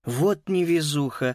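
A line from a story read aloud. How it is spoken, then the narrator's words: Sighed. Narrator (Russian): вздохнул Макс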